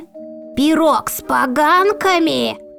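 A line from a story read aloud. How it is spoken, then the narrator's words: Old woman's loud shriek. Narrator (Russian): громко взвизгнула старуха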